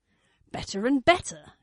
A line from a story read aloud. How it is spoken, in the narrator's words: Avon snapped